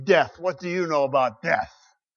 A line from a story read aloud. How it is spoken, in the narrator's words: he says to his men bitterly and scornfully